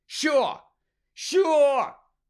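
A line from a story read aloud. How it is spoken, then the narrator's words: Shout. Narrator (Ukrainian): закричав Гаррі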